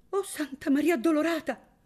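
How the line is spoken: Shocked, pale exclamation. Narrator (Italian): esclamò Donna Chiarina, bianca come un giglio

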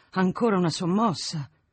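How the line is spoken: Heavy sigh. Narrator (Italian): disse con un gran sospiro

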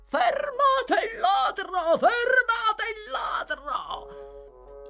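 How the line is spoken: Crowd shouting. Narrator (Italian): Il grido viene ripreso da 100 voci

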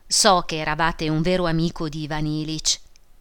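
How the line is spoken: Sigh, then speaking. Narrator (Italian): Praskovia Fyodorovna, sospirò, disse

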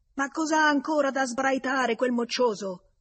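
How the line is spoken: Furious male shout. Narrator (Italian): Una voce furibonda, una voce d'uomo, urlò

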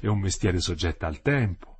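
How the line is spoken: Exclaimed. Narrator (Italian): ella esclamò

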